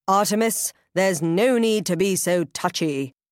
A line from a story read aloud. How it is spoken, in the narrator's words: booms the woman